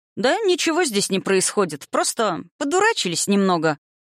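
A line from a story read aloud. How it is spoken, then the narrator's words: Cheerful reply. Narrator (Russian): весело отозвался его, по всей видимости, отпрыск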